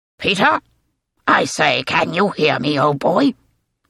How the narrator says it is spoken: Tack spoke in the clipped British tones of Andrew Case, Peter's department head

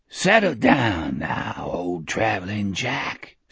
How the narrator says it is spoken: Speedy whispered in a hoarse, crackling voice

